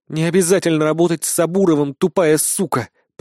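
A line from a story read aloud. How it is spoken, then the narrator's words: Growl. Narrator (Russian): прорычала Акера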